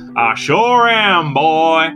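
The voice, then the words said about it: Imitates another person's voice. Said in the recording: “in your best Roger Moore impression of Sheriff D.W. Pepper”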